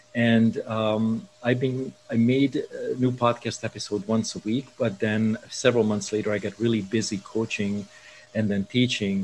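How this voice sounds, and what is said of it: Hungarian accent. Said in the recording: “I hear a distinct accent ... I was born in Budapest in Hungary.”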